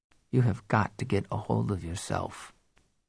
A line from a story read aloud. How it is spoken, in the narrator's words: said softly